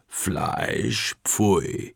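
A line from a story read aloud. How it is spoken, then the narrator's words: Croaking bird voice. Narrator (German): krächzt der Vogel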